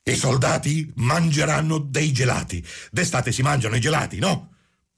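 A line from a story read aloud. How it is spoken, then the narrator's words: Shouted. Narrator (Italian): gridò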